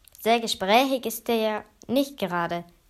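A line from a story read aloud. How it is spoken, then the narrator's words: Goblin calling out. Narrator (German): rief einer der Kobolde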